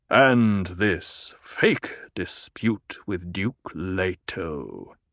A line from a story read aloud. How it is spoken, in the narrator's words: the Emperor purred